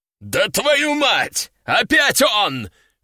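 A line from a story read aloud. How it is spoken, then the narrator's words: Howling. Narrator (Russian): Взвыл Лежаков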